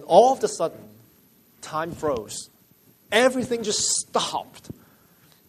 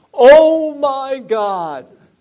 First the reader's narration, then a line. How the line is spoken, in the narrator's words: he just cried out